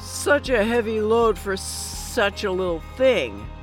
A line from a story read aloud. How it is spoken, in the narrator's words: slurs